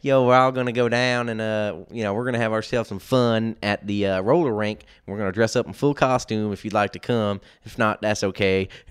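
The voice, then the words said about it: Imitates a southern accent. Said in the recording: “he's got that southern accent.”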